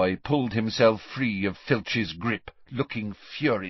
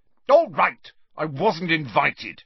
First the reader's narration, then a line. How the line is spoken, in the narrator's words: he said angrily